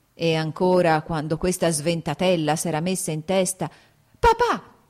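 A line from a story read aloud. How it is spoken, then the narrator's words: Shouted. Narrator (Italian): gridò Kitty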